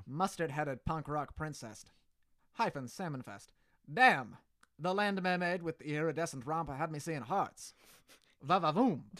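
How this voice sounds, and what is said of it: Put-on transatlantic accent. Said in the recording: “In like this transatlantic accent.”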